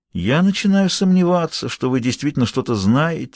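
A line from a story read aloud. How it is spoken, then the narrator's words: Gentle. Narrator (Russian): мягко сказал он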